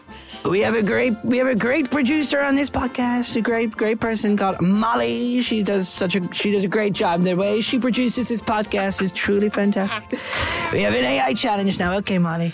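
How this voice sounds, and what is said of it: Imitates another person's voice. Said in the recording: “your best Donald Trump impression ... It's like he's in the room.”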